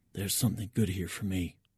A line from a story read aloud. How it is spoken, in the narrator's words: I whisper in Petrov's direction